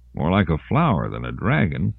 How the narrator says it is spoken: Lawrence murmured

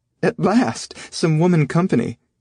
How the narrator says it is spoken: Irma said, laughing

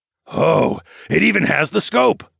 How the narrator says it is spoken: Darwin gasped

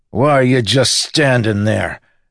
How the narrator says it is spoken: Miggs shouted at the lawman

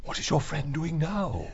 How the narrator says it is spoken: Lord Cavier whispered to Martin

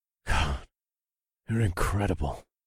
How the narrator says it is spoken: I muttered

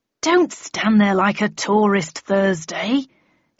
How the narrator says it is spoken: snapped crossly

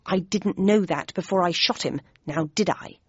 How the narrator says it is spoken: replied Bradshaw in an aggrieved tone

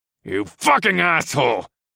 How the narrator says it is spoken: Brock spat with his fists balled up

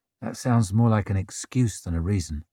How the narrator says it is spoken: murmured Durand

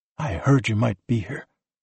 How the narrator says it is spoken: her father whispered

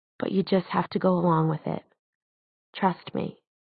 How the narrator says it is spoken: she said quietly

